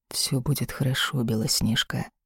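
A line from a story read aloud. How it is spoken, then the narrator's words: Whisper. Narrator (Russian): шепнул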